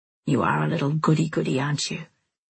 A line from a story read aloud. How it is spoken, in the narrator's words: He laughed softly